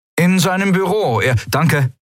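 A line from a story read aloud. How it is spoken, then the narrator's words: Called out. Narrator (German): rief Kai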